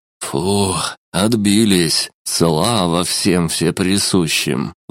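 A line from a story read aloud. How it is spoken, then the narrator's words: Relieved exhale. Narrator (Russian): выдохнул человеческий маг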